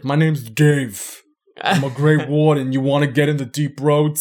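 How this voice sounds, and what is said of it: Put-on Bronx accent. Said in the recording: “I don't know why he has like a Bronx accent.”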